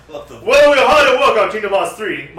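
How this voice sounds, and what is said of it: Poor imitation of businessman voice. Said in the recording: “My accent is changing. I'm a business guy. Not a good imitation of whoever this dude was.”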